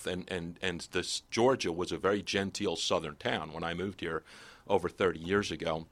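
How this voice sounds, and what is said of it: New Jersey accent. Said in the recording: “as you can tell by my voice, I was actually raised in Jersey up north.”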